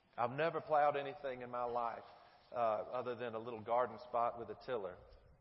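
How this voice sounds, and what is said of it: Speaks with a noticeable regional accent. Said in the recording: “regardless of the way my accent sounds to you, I really don't know much about plowing”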